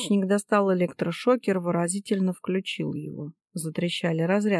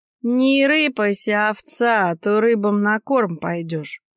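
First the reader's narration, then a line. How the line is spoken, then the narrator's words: Nasal threat, hidden. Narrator (Russian): прогнусавили из-за кустов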